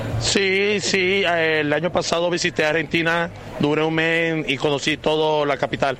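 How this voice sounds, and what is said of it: Colombian Spanish accent. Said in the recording (Spanish): “¿Y por qué esa tonada? ... Yo soy colombiano.”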